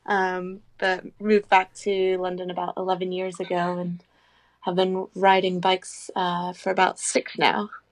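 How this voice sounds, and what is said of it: Mixed British-Canadian accent. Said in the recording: “I'm originally from the UK, but grew up in Canada, so that's why I have this accent.”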